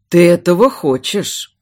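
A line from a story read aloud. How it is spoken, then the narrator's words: Low, hoarse. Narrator (Russian): низкого хриплого голоса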